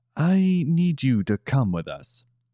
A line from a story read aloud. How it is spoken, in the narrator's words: calmly told Katami